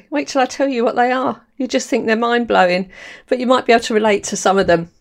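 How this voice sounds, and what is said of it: London accent. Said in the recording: “my accent ... I've got a real London”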